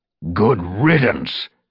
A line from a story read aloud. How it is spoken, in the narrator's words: Tiger Star growled